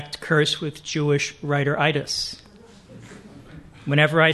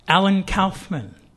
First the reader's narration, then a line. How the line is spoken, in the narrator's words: I said